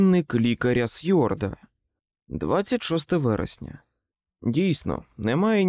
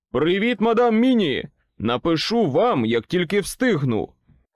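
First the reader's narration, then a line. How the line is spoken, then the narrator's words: Shouting. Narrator (Ukrainian): крикнув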